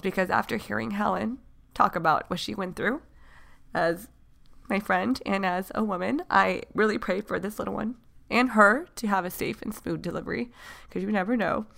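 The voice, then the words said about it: Emotional, near-tearful voice. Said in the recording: “getting emotional ... I'm emotional ... it's harder than I expected”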